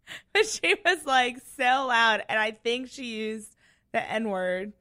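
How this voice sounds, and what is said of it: Usual voice. Nothing is said of it.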